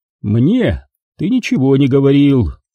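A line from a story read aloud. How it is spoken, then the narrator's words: Calm. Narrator (Russian): спокойно произнес Дикаволи Блэк Каналис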